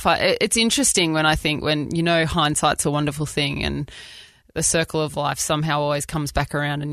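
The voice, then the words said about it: Australian accent. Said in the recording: “people always say that they really love hearing our accent speak, and I love being Australian ... we would say in Australia that we sound a little bit bogan ... very, very proud Australian here”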